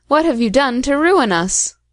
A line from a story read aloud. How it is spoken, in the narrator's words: cried Ali Baba and his son